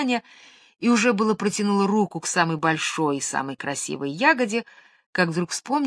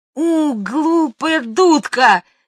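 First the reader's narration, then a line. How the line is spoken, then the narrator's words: Angry girl shouting. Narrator (Russian): сердито закричала девочка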